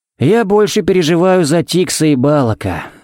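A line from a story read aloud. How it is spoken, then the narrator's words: Sighing. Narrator (Russian): вздохнул Харри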